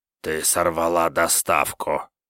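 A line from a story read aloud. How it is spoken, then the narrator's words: Hoarse rasp. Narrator (Russian): прохрипел кто-то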